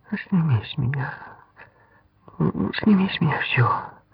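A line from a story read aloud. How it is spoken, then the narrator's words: Woman's whisper. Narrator (Russian): шептал женский голос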